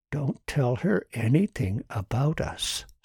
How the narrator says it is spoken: Susan whispered

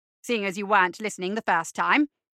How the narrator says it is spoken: said McMorning irritably

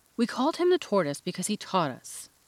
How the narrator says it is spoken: said the Mock Turtle angrily

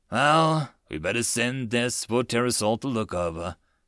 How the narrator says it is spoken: Dream said sadly

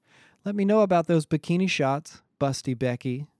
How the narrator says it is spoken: called out over his shoulder as he walked away

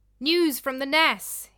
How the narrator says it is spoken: he cried out

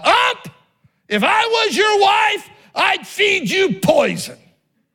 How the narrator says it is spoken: a lady critic yelled out

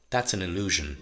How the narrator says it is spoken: the man said

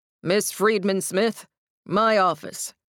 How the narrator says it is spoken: he said, his voice booming and ricocheting off the high stone walls

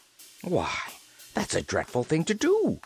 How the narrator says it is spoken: exclaimed the Scarecrow

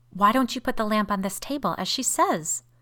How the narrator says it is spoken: asked Caroline, almost fiercely

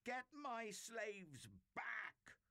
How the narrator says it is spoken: He screeched

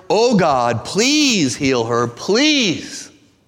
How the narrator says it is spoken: Moses cried out to the Lord

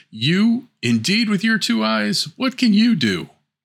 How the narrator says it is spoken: The sisters cried

